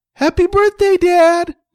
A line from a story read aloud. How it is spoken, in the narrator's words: Mike said excitedly